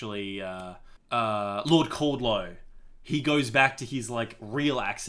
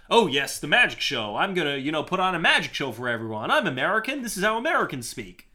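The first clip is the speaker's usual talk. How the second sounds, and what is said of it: Exaggerated mid-Atlantic American accent. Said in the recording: “That American accent? ... But that's that mid-Atlantic, like, kind of exaggerated American.”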